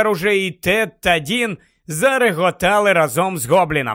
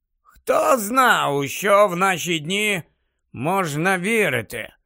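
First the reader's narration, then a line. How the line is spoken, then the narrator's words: Muttering under breath. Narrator (Ukrainian): пробурмотів собі під носа Дерк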